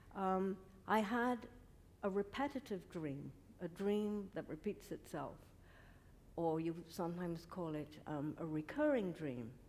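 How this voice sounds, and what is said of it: Non-American foreign accent. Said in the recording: “before I emigrated to the States, because you can all hear that I don't have quite an American accent”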